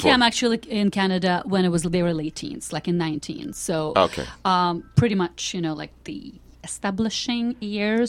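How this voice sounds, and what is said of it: Foreign accent in English. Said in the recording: “Why do you still have an accent?”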